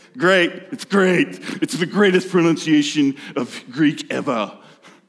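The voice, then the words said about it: Poor Trump impression. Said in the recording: “That's a horrible impersonation of Orange Man”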